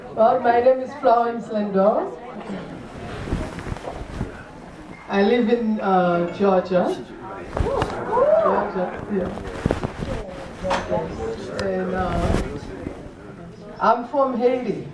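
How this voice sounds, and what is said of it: Haitian accent. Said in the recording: “Did you think about the accent? So, yes, I'm from Haiti.”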